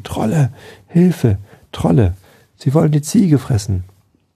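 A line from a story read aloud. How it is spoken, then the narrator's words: Shouted through cupped hands. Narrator (German): Der legte die Hände um den Mund und schrie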